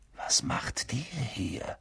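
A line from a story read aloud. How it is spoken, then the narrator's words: Whisper. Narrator (German): flüsterte Harry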